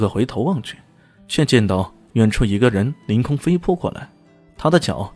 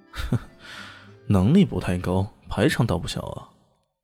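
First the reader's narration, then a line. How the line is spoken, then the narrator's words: Disdainful muttering. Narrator (Chinese): 李炫撇了撇嘴，喃喃的说道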